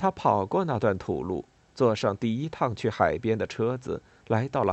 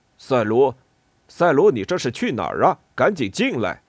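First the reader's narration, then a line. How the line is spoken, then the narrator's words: Confused calling. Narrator (Chinese): 他有点迷糊地……喊道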